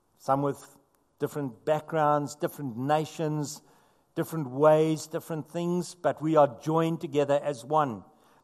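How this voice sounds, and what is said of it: South African accent. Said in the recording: “My amazing South African accent”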